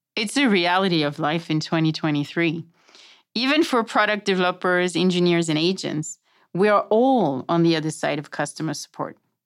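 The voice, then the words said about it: French accent. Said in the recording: “it's all about my accent. I'm French”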